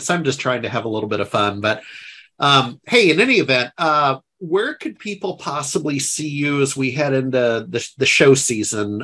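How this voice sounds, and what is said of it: Fake Texas accent. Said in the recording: “I have a fake Texas accent.”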